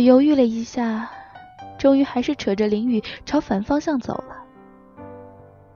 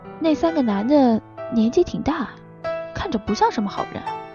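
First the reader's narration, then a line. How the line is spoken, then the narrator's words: Quiet, uneasy. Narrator (Chinese): 林雨皱了皱眉，小声的说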